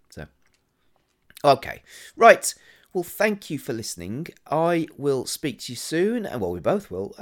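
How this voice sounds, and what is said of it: Strained, failing voice. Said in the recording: “the way my voice is going”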